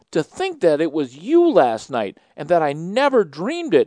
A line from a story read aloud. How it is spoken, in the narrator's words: exclaimed Theodora